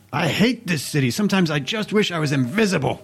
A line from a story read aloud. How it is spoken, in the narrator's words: he yells out in frustration